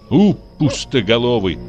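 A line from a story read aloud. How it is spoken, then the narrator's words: Angry. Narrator (Russian): сказала она сердито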